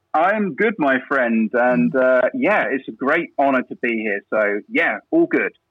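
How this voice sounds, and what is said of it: English accent. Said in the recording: “I detect a little bit of an accent ... I haven't quite got the Canadian lilt quite yet. So I'm from England, UK.”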